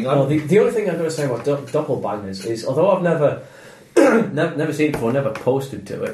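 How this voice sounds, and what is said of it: Northern English accent. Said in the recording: “the northern in my accent”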